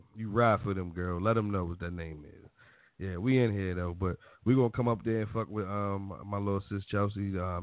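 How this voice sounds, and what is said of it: Baltimore accent. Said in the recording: “that's my Baltimore accent.”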